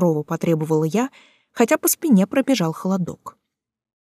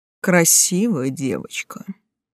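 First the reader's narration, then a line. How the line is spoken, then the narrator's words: Nasty hoarse voice. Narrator (Russian): Противным хриплым голосом заключил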